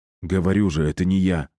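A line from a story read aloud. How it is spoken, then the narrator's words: Plain. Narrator (Russian): сказал Кирилл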